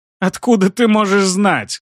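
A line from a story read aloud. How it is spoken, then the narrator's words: Strangled laugh. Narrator (Russian): Сдавленно рассмеялся маг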